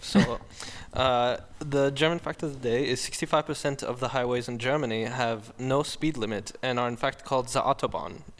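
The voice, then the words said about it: Put-on German accent. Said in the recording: “do it in your German accent ... I can't with the accent. It's so good.”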